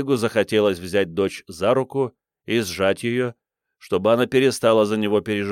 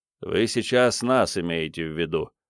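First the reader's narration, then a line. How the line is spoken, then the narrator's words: Grumbling. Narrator (Russian): проворчал Крейг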